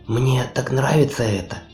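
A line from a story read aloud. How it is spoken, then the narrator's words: Whispered. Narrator (Russian): прошептала она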